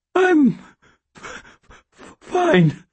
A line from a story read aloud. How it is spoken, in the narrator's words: I said in a hoarse, hardly understandable voice